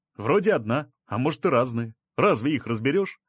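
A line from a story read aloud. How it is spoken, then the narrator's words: Plain, man. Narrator (Russian): ответил мужчина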